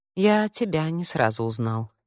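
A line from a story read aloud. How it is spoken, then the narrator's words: Quiet. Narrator (Russian): тихо произнес он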